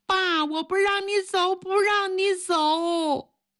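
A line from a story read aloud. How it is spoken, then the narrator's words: Child wailing. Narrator (Chinese): 女儿……哇哇的哭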